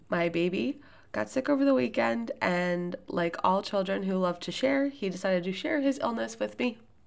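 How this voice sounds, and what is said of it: Voice sounds a little off. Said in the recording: “I have actually been sick all week. You can probably hear that my voice sounds a little off ... I just sound a little worse than I feel”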